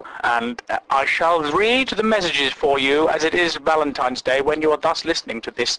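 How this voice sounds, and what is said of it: Impression of Russell Brand. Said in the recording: “That's my impression of... what's his name? That little gangly twat with the funny hair. Swears at old men. Russell Brand. He always says dustly, thus, thus, thus.”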